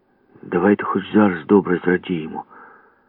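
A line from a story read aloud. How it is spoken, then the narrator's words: Hissed from the stern. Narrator (Ukrainian): зашипів з корми Ява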